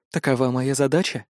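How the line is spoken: Woman, soft smiling tone. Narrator (Russian): мягко улыбнулась женщина

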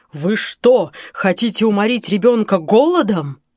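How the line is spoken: Thundering. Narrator (Russian): прогремел

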